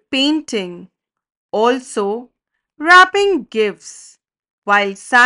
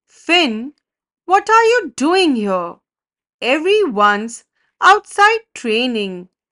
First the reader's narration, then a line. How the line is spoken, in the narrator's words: exclaimed